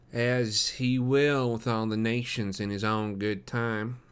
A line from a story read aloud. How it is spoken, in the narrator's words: said the other in a nasal voice